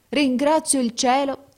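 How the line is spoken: Exclamation. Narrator (Italian): esclamò

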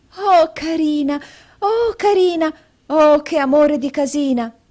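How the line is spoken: Delighted exclamation. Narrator (Italian): esclamò giungendo le mani

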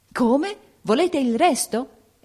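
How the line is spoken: Shocked exclamation. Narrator (Italian): esclamò impallidendo

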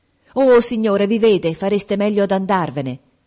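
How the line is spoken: Exclaiming. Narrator (Italian): esclamò Grace

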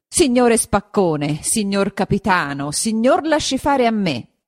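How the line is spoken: Said or shouted. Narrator (Italian): gli disse o gli gridò

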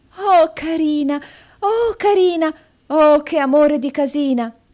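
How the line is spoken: Exclaiming. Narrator (Italian): esclamò

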